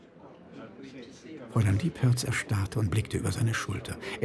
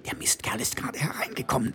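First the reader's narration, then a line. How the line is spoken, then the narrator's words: Hissed. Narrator (German): zischte sie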